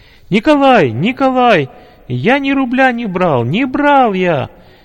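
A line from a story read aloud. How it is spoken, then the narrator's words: Frightened shouting. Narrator (Russian): раздался испуганный голос Димы, который по-настоящему кричал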